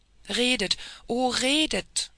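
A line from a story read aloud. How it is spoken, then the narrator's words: Delighted exclamation. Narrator (German): rief indem ihr die Augen glänzten vor Entzücken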